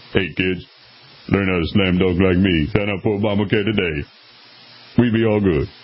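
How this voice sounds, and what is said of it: Good LeBron impression, very low voice. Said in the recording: “That was a pretty good impersonation. ... He does have an extremely low voice, if you ever heard LeBron speak.”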